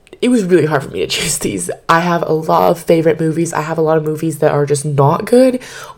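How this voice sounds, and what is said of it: Slightly raspy, strained voice. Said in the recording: “lost my voice a little bit, so if I sound a little raspy”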